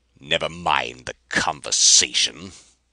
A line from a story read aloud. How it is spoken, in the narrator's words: Rapaju snarled